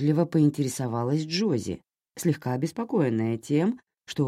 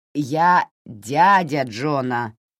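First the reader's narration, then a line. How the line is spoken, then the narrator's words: Grumbling. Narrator (Russian): проворчал он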